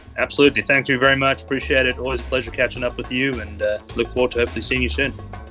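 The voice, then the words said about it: South African accent. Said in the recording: “love his South African accent”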